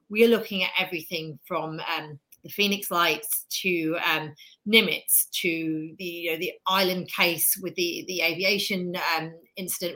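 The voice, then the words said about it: British accent. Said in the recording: “I'm obviously British, as you can tell by my accent”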